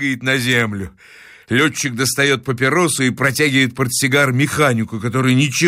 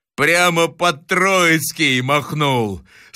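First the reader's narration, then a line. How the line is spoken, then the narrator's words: Laughing reply. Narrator (Russian): Смеясь, отвечает пилот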